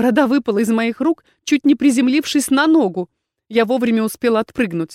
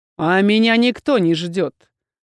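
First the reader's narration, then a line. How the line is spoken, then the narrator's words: Irritated. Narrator (Russian): раздраженно сказал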